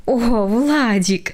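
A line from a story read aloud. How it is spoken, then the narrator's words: Mother's involuntary laugh. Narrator (Russian): невольно рассмеялась мама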